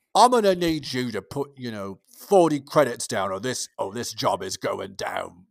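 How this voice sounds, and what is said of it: Bad British gangster accent. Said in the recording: “That was a bad impression of a British gangster movie”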